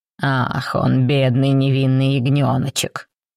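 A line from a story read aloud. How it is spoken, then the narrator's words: Sarcastic mutter. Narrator (Russian): язвительно пробормотал Раум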